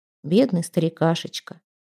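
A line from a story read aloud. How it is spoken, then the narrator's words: Quiet. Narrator (Russian): негромко сказала Пламтри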